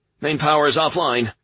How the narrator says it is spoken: another technician shouted

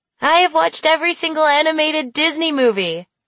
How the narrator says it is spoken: Amanda yelled out

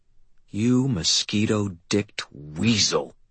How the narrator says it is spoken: she said, her voice coldly furious

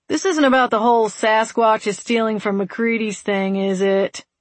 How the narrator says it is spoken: Duffy groaned

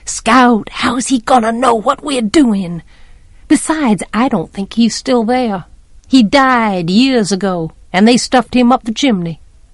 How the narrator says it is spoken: Jem hissed

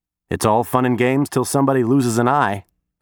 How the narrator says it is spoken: I replied

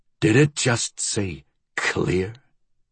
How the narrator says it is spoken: Pinkerton hissed

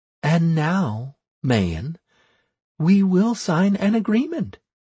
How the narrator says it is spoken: purred Anastaria, looking pleased

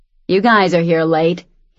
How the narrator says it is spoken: he said flatly

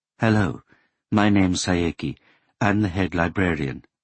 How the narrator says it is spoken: the woman said, and smiled calmly

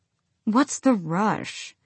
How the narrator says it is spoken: Adian drawled

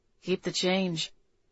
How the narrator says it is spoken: he muttered

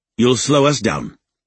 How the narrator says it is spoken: Raiden said curtly

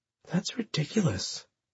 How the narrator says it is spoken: she mutters

